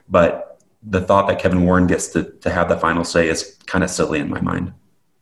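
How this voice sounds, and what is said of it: Strained, fading voice. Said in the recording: “I'm losing my voice too”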